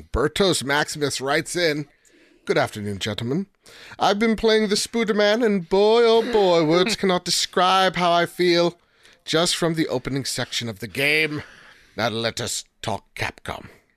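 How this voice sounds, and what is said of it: Put-on accent reading a letter. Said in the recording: “I don't know why I did the accent, but I'm going to keep on going.”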